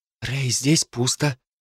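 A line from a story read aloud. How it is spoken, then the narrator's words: Whisper. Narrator (Russian): прошептала Джо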